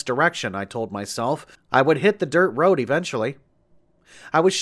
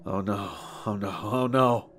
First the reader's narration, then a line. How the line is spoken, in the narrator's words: I muttered to myself